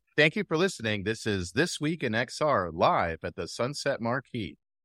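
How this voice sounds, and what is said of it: Announcer-style radio voice. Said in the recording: “Do you want to do an outro with your radio voice?”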